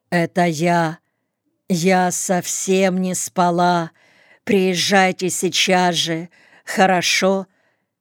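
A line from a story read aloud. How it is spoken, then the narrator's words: Tired, exhausted voice. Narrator (Russian): говорила она устало, измученным голосом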